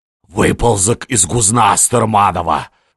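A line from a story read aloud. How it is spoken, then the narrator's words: Hissing. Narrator (Russian): шипел он сверху на Неплюева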